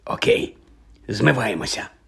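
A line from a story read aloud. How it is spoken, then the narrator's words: Whispered. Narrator (Ukrainian): прошепотів Джордж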